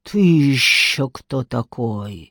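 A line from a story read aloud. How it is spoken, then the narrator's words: Woman's hiss. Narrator (Russian): прошипела женщина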